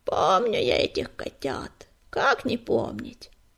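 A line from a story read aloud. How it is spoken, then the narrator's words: Creaky old voice. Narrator (Russian): проскрипел старый безух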